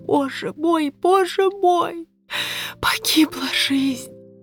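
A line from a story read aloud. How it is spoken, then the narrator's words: Loud sobbing mutter. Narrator (Russian): Я громко всхлипывала и бормотала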